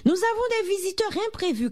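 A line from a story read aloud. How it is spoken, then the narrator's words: Shout. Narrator (French): cria-t-elle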